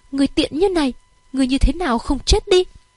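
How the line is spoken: Loud pained shout. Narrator (Vietnamese): Phục Linh che lại đau đớn trên ngực, lớn tiếng

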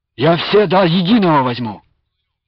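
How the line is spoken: Fervent exclamation. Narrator (Russian): пылко воскликнул Андрей

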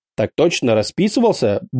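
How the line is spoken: Brisk mock-military report. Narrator (Russian): бодро отрапортовал я, продолжая валять дурочку

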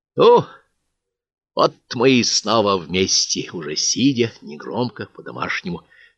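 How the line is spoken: Commander's exhale. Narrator (Russian): выдохнул командир

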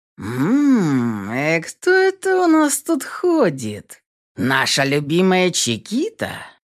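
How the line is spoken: Drawling. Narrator (Russian): Протянул этот тип

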